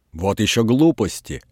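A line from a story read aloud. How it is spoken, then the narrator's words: Angry speech. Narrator (Russian): сердито говорила Коковкина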